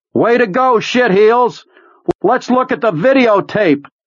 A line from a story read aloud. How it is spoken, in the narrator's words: he cupped them around his mouth and yelled